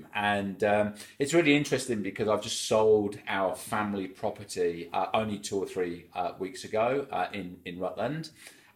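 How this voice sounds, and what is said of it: English accent. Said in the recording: “as you can pick up from my accent, I'm English”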